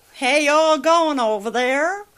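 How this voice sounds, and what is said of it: Put-on Southern US accent. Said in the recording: “teaching me to talk like a southerner”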